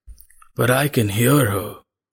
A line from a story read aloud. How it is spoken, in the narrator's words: rasped the man